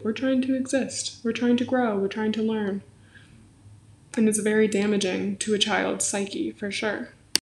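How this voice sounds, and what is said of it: Strained, fading voice. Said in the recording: “I don't know why I'm losing my voice.”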